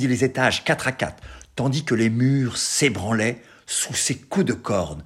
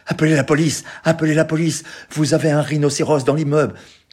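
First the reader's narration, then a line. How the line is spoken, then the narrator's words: Shouted. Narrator (French): Je criais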